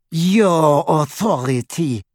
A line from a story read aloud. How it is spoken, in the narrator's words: she sneered